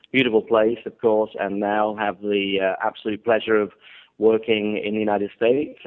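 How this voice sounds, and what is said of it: British English accent. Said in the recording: “you said I have a good accent ... where the accent's from ... I'm actually British. I'm not Australian. However, when I'm accused of being Australian ... I am British, born in Warwickshire, in the heart of England”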